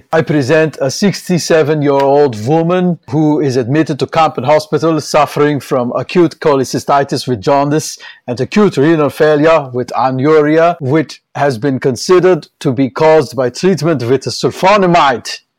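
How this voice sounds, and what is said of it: Put-on heavy German/Austrian accent. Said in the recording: “a German accent, a heavy German ... So we're going into the German accent. Although this is kind of Austrian.”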